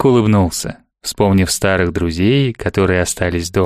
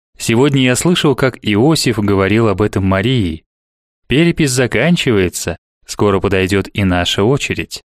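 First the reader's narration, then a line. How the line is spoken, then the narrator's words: Plain. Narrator (Russian): так он сказал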